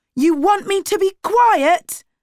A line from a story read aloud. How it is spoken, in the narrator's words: shouted